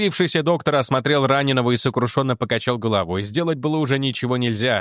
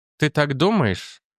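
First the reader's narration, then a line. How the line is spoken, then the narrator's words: Strange-toned question. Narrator (Russian): странным тоном спросила Финелла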